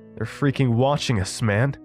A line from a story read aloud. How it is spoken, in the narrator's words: Evan said as his voice raised with each word